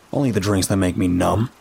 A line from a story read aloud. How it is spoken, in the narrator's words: he said crossly